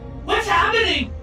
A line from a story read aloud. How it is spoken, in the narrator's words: Mom screamed from upstairs